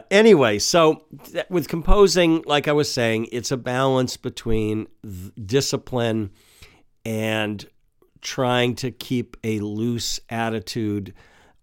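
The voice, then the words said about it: Congested voice from a cold. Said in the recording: “I have a cold. I'm right in the middle of a cold”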